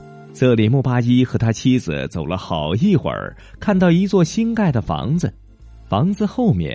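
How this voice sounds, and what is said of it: Usual voice. Nothing is said of it.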